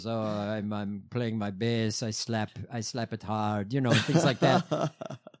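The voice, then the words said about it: Imitated Italian-sounding accent. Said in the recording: “I think he's Italian or something like that. But he talks like this. He has an accent”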